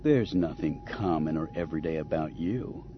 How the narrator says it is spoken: Han replied in a tone so cloying that it made Chewbacca groan

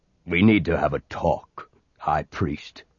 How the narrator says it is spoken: he said gruffly

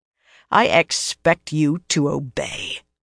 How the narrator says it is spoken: she said in a low, dangerous voice

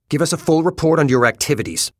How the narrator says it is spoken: he says curtly

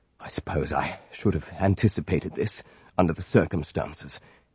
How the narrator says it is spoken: he muttered

